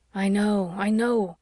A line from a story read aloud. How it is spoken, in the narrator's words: groaned Owen